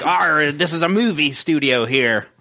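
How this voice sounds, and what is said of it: Salty pirate voice. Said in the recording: “salty pirate talking ... pirate accent”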